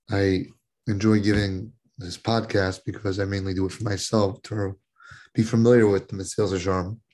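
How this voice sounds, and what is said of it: Hoarse, weakened voice. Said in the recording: “I apologize if my voice sounds off. ... For some reason, I lost my voice.”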